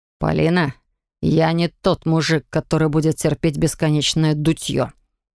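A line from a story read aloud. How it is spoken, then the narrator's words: Displeased, through teeth. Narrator (Russian): процедил он недовольно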